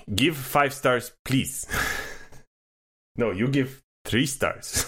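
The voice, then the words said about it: Put-on Russian accent. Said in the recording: “Don't know where that accent came from ... with that accent ... anti-Russian”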